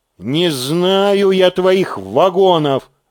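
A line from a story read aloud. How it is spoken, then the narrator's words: Irritated mutter. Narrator (Russian): раздраженно буркнул Корин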